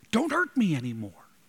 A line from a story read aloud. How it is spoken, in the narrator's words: pleads, but he doesn't plead